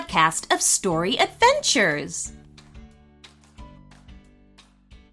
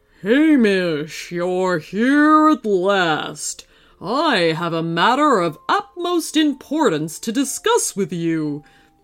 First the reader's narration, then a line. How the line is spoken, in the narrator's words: the grizzly thundered in a low voice